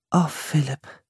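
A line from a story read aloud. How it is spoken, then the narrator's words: Soft speech. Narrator (German): sagte Priscilla leise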